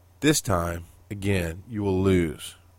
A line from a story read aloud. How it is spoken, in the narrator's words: replied the visitor quietly